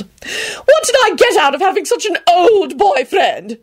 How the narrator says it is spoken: She shrieked

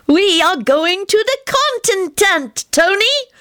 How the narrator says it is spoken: Teddy chirped

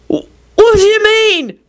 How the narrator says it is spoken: Victor shouted

